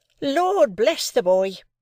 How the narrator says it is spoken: exclaimed my sister, as if she didn't quite mean that, but rather the contrary

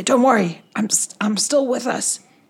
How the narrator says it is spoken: I whisper to Alyssa and Rigel and say

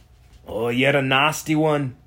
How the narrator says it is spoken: Logan growled through clenched teeth as he fought off the fanatical skeleton

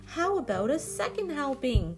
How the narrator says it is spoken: yelping

